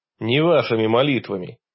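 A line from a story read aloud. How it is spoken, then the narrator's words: Stern reminder. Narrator (Russian): строго напомнил я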